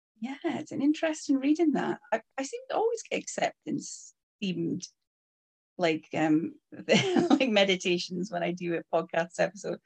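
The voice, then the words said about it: Shetland Scottish accent. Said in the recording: “I am in Shetland Isles ... As we can tell from the accent.”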